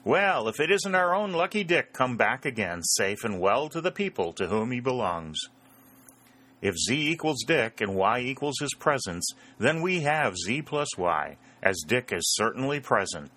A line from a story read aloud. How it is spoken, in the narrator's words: called out another voice, not quite so loud, but equally cheery